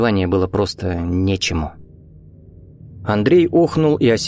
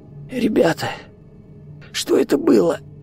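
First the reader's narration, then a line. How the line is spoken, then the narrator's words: Wheezing. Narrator (Russian): просипел Виктор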